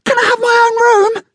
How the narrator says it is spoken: they pleaded

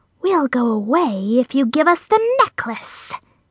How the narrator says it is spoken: hissed

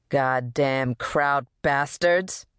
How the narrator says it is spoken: spat

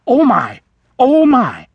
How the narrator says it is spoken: the vole exclaimed, flustered and embarrassed

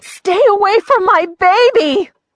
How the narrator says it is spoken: His mother screamed

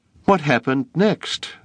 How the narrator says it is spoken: David cried

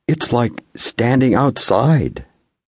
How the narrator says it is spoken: Metty's ma exclaimed

